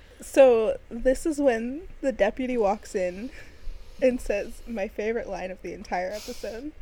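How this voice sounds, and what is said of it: Usual voice. Nothing is said of it.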